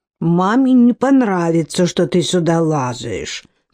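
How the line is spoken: Grumble. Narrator (Russian): пробурчала Хивер

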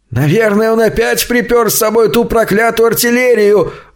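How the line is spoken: Terrified howl. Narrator (Russian): В ужасе взвыл какой-то другой голос

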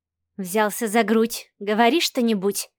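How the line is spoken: Muttering. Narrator (Russian): пробормотала Марианна

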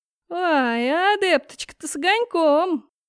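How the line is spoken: Joyful drawl. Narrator (Russian): радостно протянул

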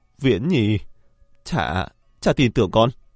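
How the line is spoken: Weeping. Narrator (Vietnamese): Hắn khóc lóc nói

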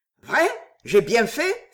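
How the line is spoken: Exclaimed. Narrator (French): s'exclama Poisson

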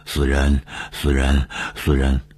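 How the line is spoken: Menacing muttering. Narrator (Chinese): 他对着小亚长久的狞笑，嘴里嘟囔着说

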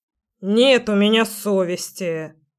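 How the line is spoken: Grumbling house spirit. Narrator (Russian): проворчал домовой

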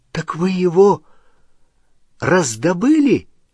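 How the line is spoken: Exclaiming. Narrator (Russian): воскликнул Рон

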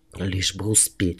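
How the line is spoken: Breathless, gasping whisper. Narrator (Russian): шептал, запыхавшись и с трудом сглатывая воздух

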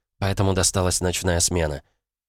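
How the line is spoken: Calm even voice. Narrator (Russian): ровным голосом объяснила девушка

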